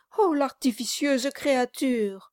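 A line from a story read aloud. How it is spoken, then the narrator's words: Exclaimed. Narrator (French): s'écria Mistress Nobles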